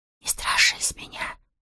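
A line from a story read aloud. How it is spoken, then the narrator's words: Whisper from behind curtain. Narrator (Russian): прошептал кто-то из-за шторы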